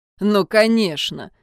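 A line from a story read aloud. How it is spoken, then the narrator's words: Irritated snort. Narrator (Russian): фыркнул Джун раздраженно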